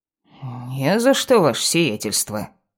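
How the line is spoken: Old servant grumbling. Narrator (Russian): проворчал старый слуга

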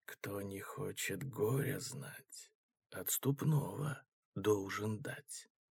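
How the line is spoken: Whisper. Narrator (Russian): прошептал он

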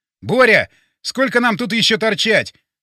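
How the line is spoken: Shouted. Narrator (Russian): крикнул я

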